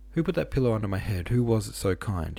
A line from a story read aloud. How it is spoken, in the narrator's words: cried with a sort of ecstatic gratitude, and tears in his voice